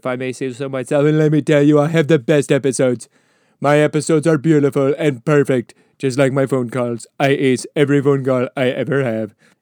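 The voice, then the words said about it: Imitates another person's voice. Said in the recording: “that is an impression of Teddy Roosevelt, of course”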